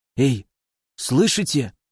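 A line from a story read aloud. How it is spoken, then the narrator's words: Quiet question. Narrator (Russian): тихо спросил он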